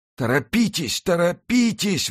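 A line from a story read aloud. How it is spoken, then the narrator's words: Executioner exclaiming. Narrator (Russian): воскликнул палач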